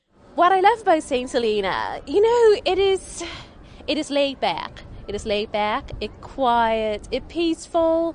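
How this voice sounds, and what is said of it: St. Helenian accent. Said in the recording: “I speak with a St. Helenian accent.”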